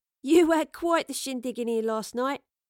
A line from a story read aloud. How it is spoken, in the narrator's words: chuckled